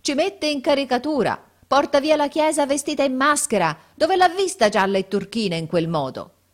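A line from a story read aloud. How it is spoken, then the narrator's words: Shouted by several voices. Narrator (Italian): Gridavano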